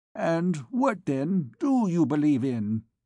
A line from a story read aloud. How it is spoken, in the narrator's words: exclaimed Gossip Toringot